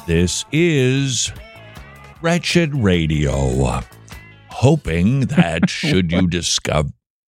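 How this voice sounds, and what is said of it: Speaking very slowly. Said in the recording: “Why are you talking so slow?”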